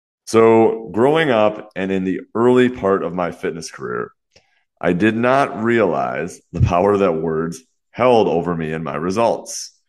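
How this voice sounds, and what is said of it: Congested, slightly off voice. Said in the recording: “I sound a bit congested or my voice sounds a little off, that is because I am a little bit congested right now, I think from some allergies”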